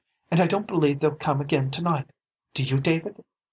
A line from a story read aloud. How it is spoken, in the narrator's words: she gasped